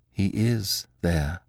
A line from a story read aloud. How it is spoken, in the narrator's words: said Beautrelet in a hollow voice